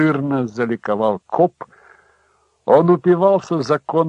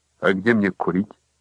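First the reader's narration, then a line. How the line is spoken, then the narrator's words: Plain. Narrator (Russian): спросил Хэнк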